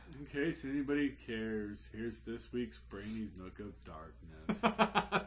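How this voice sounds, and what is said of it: Gloomy Eeyore cartoon voice. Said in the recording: “best Eeyore voice ... That was pretty good. Well done. ... you nailed that one.”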